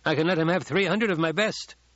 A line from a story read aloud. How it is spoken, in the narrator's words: Halleck said